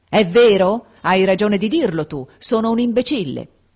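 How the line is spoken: Shouted. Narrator (Italian): gridò

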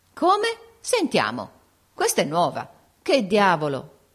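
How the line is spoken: Group exclaiming in surprise. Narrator (Italian): esclamarono tutti

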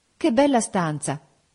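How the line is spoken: Exclamation. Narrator (Italian): esclamai

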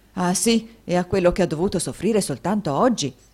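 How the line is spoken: Many voices shouting. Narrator (Italian): gridarono molte voci

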